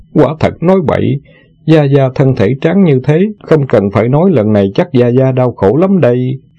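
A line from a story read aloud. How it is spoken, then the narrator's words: Startled, laughing. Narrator (Vietnamese): Tiểu Ngô ngẩn ra lập tức bật cười nói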